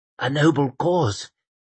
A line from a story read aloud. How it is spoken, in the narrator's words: he whispered